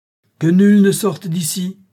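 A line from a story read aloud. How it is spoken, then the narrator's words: Shouted. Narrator (French): cria le sultan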